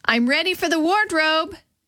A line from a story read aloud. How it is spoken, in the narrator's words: shouted